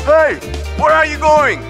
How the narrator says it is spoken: screamed the guard

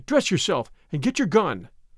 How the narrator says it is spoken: cried I

